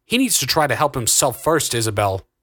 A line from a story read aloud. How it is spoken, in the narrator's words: Augustus barked